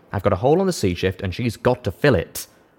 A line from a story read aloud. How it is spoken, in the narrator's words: Rivet said firmly